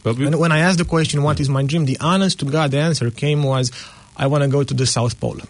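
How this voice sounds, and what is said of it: Non-native English accent. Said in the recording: “has an accent. It's not English isn't his first language.”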